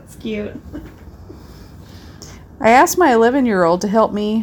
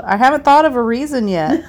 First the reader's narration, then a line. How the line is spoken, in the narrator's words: she yelled